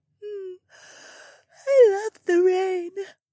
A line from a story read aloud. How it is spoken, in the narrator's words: the Oryx woman said with a cute little yawn